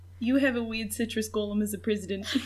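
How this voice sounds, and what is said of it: Poor put-on New Zealand accent. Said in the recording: “I have a phrase I say in a New Zealand accent. Oh, poorly. ... Mine is bad.”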